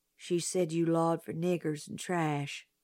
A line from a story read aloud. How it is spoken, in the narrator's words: Jim said softly